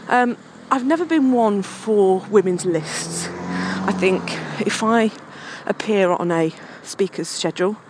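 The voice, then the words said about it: Out of breath, panting while talking. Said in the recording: “Sorry, if I'm a bit out of breath, I'm walking up a slight incline and I'm slightly unfit.”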